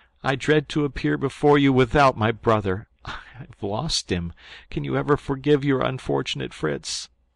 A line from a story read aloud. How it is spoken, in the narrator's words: said he, sobbing